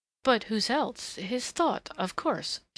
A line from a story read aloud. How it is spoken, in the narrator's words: stammered